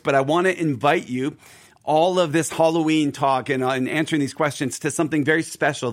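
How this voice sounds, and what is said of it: Slightly hoarse voice. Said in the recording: “my voice is a little hoarse today. I'm getting over a cold ... without losing my voice.”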